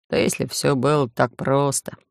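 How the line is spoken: Mutter. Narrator (Russian): пробормотал компьютерщик

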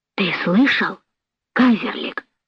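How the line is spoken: Quiet. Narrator (Russian): тихо сказал младший возчик

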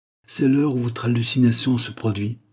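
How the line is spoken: Murmured. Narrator (French): murmura une voix

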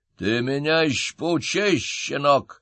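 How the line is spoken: Growling. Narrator (Russian): прорычал чиновник

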